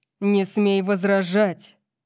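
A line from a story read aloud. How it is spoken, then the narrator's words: Growled. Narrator (Russian): Прорычал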